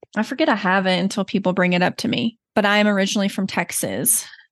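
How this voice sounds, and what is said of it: Slight Southern US accent. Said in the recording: “You may notice a slight Southern accent.”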